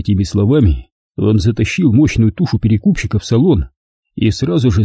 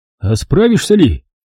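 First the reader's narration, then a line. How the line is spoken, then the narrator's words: Doubtful shout. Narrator (Russian): с сомнением прокричал он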